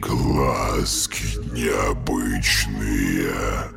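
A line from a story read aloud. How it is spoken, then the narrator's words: Deep booming bass. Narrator (Russian): прогудел человек густым басом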